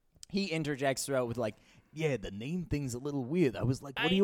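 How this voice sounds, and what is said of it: Usual voice. Nothing is said of it.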